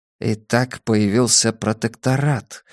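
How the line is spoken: Quiet remark. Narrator (Russian): негромко заметил Абеттик

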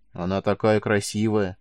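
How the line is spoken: Sigh. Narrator (Russian): вздохнула Таура

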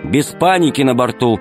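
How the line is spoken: Stern. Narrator (Russian): строго сказал Полосков

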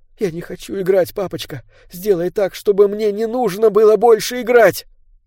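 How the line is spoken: Tearful whisper. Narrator (Russian): шепча сквозь слезы

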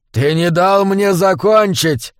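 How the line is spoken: Sudden shout. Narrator (Russian): крикнул вдруг Бонифаций

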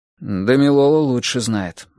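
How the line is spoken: Muttering. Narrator (Russian): буркнул Грым

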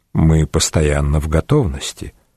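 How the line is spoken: Quiet. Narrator (Russian): госпитальер продолжал говорить тихо

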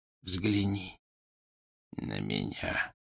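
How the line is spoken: Whisper. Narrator (Russian): прошептал он

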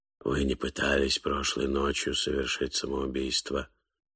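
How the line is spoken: Indifferent whisper. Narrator (Russian): сказал Кен Кениак своим безразличным шепотом

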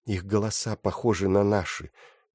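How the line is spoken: Quiet, continuing. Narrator (Russian): тихо продолжала она

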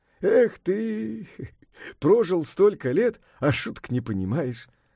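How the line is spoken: Laughing. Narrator (Russian): засмеялся Сунь-Укун

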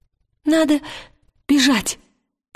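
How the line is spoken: Timid babbling. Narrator (Russian): пролепетал Вальтамос

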